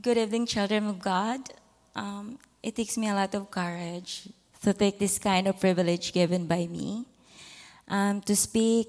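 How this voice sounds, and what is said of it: Filipino English accent. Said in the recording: “Bear with me, brothers and sisters, with my Filipino accent.”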